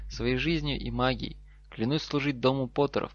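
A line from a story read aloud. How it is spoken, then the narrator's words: Trembling voice. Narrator (Russian): та дрожащим голосом повторила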